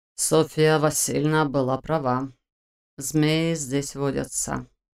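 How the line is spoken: Slightly hoarse with agitation. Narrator (Russian): чуть охрипшим от волнения голосом заметил Войтых

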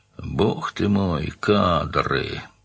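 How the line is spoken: Pained groan. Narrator (Russian): простонал Данил, скривившись, как от занудливой зубной боли

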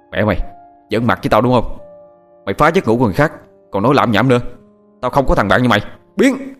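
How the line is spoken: Shouting. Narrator (Vietnamese): Thằng Hoàng quát lên

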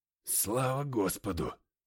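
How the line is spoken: Wry, sad muttering. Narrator (Russian): Усмехнувшись, пробормотал я, внезапно ощутив себя столь же печальным, как и девятипалый

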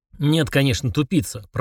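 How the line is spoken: Grumbling. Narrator (Russian): проворчал Фрундорог

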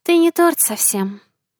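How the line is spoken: Sighing. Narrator (Russian): вздохнула Марсия

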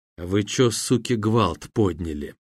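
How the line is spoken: Ominous whisper. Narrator (Russian): зловещим шепотом молвил одноногий

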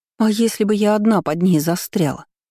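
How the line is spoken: Indignant exclamation. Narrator (Russian): воскликнула возмущенно

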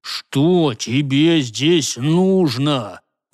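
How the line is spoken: Growled through teeth. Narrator (Russian): прорычал сквозь зубы Гортер

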